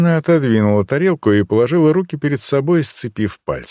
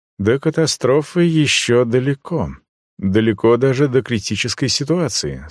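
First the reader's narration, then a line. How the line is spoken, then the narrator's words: Quiet. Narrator (Russian): сказала она негромко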